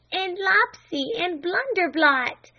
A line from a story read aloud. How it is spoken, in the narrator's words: cried Flame